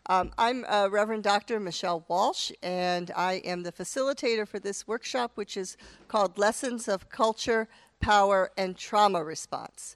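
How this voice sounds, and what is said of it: Slightly off, congested voice. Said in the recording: “I also have a head cold, so I know that my voice is a little bit off”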